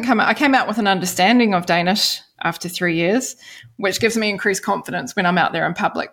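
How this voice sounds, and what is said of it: New Zealand accent. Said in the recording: “my New Zealand accent”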